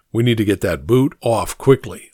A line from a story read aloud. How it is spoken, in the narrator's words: I said